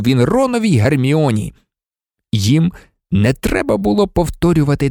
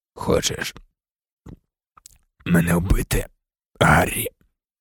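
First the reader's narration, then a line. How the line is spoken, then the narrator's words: Whisper. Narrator (Ukrainian): прошепотів він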